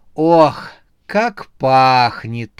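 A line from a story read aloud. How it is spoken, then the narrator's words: Drawling. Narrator (Russian): протянула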